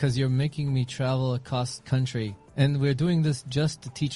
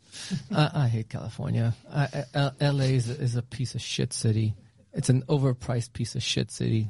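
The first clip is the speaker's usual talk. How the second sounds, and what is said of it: Imitates another person's voice. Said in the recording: “my Arnold impression”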